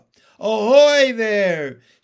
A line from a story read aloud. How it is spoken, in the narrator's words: shouted the chief of police